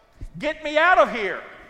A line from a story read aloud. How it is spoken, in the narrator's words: I'm saying, maybe in a louder voice